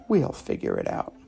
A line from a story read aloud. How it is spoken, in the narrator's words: They smiled and whispered